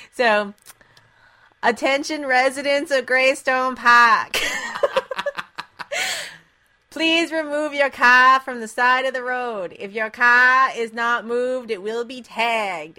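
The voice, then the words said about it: Put-on Boston accent. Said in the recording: “this is me doing my Boston accent”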